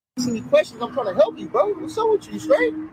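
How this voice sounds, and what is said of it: Yelling, aggressive shouting. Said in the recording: “You're yelling at me.”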